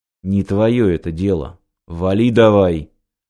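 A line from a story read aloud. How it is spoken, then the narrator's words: Menacing, through gritted teeth. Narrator (Russian): Угрожающе процедил Таран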